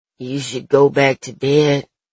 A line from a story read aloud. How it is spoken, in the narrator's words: the deep voice mumbles blearily